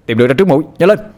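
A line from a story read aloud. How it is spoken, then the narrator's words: Sharp shout. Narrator (Vietnamese): Anh Hùng quát ngay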